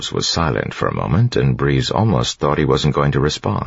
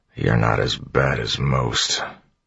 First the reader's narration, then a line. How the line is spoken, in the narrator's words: Clubs muttered